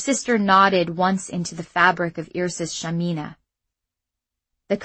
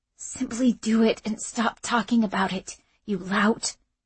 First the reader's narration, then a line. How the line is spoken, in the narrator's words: she muttered in a barely audible tone